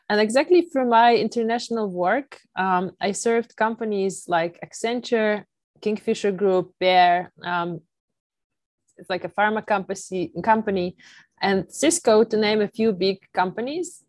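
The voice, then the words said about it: Non-native English accent. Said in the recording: “as you can hear, I'm not a native English speaker”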